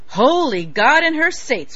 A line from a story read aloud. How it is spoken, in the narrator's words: Wochens bellowed